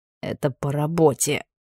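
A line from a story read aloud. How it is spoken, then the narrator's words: Hoarse remark. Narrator (Russian): хрипло заметил комиссар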